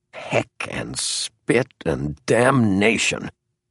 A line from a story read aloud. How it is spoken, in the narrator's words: muttered the former editor